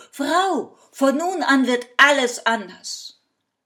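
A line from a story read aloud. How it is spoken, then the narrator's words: Calling from afar. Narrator (German): Von Weitem rief ihr zu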